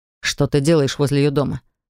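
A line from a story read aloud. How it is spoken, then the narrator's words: Irritated question. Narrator (Russian): спросил брат раздраженным голосом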